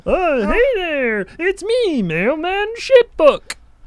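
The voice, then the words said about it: Silly puppet character voice. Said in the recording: “doing the exact same voice you're doing ... he's not very good at it ... that guy sounds like he could do one”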